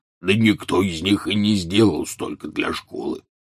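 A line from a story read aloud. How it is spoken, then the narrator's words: Grumbling. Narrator (Russian): проворчал Хагрид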